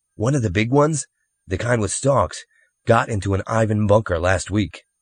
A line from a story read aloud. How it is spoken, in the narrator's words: Eric said